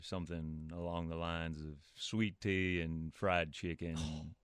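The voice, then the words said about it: Put-on Southern US accent. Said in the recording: “a southern accent ... give me a little southern accent ... I really like it ... That's very well done”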